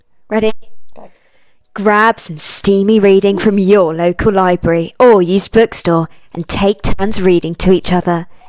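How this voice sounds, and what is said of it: Sexy sales-pitch voice. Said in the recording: “Do it in like a sexy sales voice... She's getting into it. Voice actor.”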